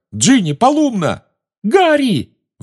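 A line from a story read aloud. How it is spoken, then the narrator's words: Shriek. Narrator (Russian): взвизгнула Гермиона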